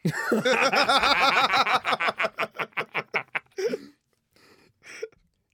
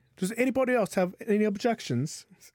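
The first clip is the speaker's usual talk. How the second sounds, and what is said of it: Poor put-on Irish accent, sounding British. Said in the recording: “I don't know why I was British, but trying to get that Irish lilt into it. I'm not good at Irish.”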